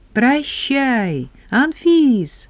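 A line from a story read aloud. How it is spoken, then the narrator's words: Shout. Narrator (Russian): крикнул Коля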